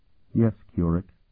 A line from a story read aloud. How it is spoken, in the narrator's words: she replied in a sad voice